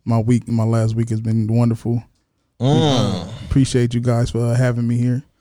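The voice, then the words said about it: Smooth radio announcer voice. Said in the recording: “I'm using my radio voice today.”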